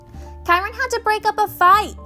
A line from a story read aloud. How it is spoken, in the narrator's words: Luke shouted to me over the music